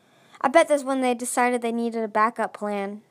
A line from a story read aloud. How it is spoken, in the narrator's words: Starflight said